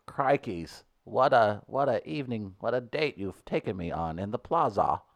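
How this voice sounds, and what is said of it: Put-on Australian accent. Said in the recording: “She's Australian. Do an Australian accent.”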